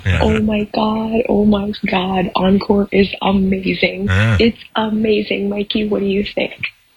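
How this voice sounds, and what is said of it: Whispering. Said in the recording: “I'm whispering because I don't want to wake up my house.”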